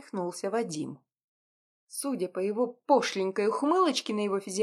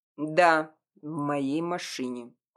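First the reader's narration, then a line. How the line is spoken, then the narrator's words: Cold, curt. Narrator (Russian): холодно отрезал Ян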